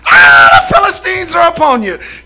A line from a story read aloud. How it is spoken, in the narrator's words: screams